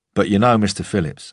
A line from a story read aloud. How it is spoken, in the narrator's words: I said